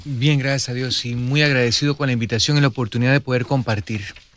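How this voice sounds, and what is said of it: Costa Rican Spanish accent. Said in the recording (Spanish): “un acento espectacular ... Costarricense”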